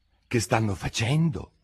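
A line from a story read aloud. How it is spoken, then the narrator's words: Whispered. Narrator (Italian): sussurrò Alice al grifone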